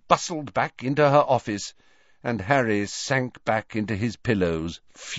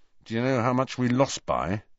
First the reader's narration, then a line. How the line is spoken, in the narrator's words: he asked Ron through clenched teeth